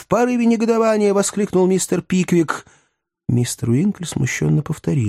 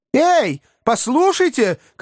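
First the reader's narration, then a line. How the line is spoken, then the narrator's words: Angry shout. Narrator (Russian): крикнул рассерженный мистер Пиквик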